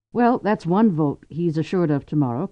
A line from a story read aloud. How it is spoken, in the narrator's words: Cordelia joked to her father-in-law